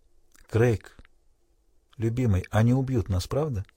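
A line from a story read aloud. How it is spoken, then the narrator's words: Quiet question. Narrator (Russian): тихо спросила Селиен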